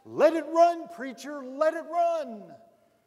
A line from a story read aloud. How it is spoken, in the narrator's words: all the people shouted back